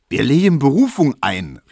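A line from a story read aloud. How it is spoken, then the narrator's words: Calling out, personally invested. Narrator (German): rief Tesch wieder, der jetzt die Sache zu seiner eigenen gemacht hatte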